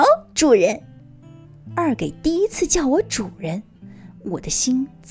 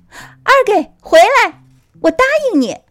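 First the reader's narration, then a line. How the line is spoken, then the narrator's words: Loud. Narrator (Chinese): 大声的说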